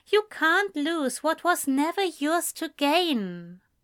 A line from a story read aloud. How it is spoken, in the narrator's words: Ezra said gently